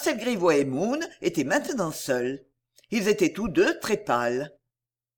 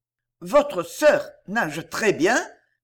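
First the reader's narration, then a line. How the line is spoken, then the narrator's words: Stammering. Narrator (French): balbutia Marcel Grivois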